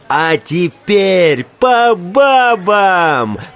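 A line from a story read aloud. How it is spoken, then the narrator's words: Wild yelling, freak. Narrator (Russian): завопил урод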